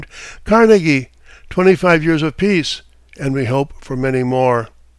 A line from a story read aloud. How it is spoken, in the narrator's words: exclaimed